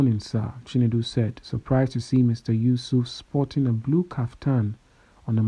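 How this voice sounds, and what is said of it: Usual voice. Nothing is said of it.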